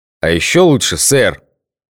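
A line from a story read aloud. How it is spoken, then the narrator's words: Growl from above. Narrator (Russian): рыкнул сверху Гоша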